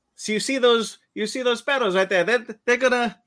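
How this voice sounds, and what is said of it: Deliberately bad put-on accent. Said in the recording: “That's a horrible accent.”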